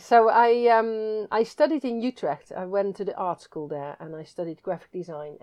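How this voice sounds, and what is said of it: Dutch accent, slight twang. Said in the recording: “from your accent, obviously, listeners can tell that there's a twang, and I think it's a Dutch twang.”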